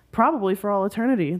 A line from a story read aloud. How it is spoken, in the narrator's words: the ghost said cheerfully